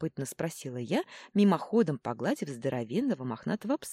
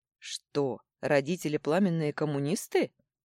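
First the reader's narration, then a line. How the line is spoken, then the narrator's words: Short laugh. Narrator (Russian): хохотнул тот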